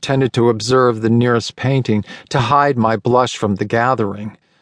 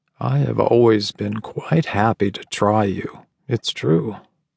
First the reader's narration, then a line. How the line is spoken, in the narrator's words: he lowered his voice and said